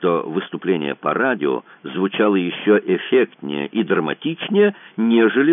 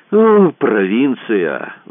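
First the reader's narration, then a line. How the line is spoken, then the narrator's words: Sighed. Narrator (Russian): вздохнул Кацуба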